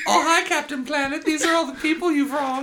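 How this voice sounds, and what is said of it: Cute baby voice. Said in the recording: “he says it in, like, a cute baby voice ... I'm doing a baby”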